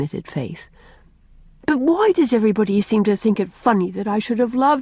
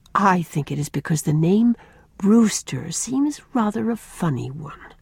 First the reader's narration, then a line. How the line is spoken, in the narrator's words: said Rosemary gravely